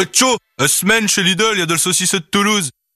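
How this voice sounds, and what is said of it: Put-on northern French accent. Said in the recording (French): “avec un accent du Nord”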